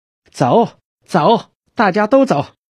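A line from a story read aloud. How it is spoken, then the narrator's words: Shouting. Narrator (Chinese): 金花的喊声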